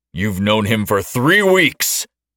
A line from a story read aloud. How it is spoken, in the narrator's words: shouted, red-faced, a vein trying to explode from his neck